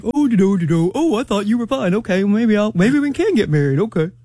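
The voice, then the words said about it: Imitates a man's voice. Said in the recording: “my man impersonation”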